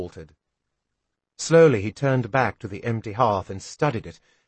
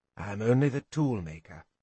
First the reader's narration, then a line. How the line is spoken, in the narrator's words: he said at last, quietly